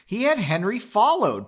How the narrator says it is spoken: Pauline yelled

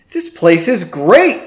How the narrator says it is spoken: exclaimed Henry

